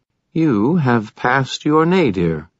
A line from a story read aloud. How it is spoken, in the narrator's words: she said in a decidedly pleased tone